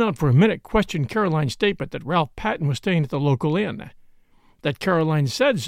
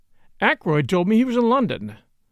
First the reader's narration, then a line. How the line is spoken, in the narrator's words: said